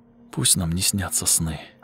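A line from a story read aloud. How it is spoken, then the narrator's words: Whisper. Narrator (Russian): прошептала она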